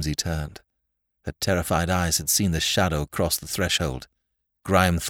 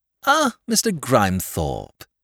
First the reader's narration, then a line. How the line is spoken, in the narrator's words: exclaimed Whimsy cheerfully